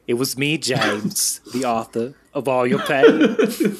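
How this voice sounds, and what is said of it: Imitates another person's voice. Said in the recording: “my Christoph Waltz impersonation”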